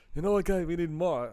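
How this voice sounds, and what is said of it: Poor imitation of another person's voice. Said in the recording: “I'm not even going to try doing a walk. I started there. ... that was a pretty bad impression.”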